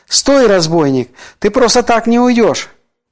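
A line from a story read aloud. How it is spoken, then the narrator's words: Shouted. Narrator (Russian): крикнул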